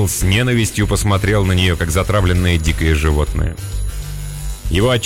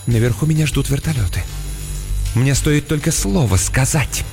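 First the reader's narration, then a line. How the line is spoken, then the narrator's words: Slightly trembling whisper. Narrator (Russian): Мисс Каммингс слегка дрожащим голосом прошептала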